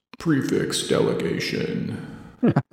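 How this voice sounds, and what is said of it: Spooky Halloween voice. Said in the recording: “In my scary Halloween voice.”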